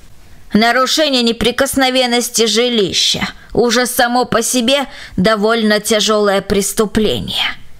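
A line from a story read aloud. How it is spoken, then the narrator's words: Rude interruption. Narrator (Russian): грубо оборвала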